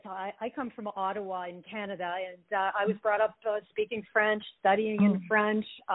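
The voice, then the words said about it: French-Canadian accent in English. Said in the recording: “Hear my French accent here and there when we talk. That TH isn't always my friend.”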